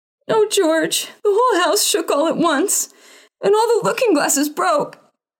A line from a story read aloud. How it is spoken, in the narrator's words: wailed his mother, and Adriana and Cordelia joined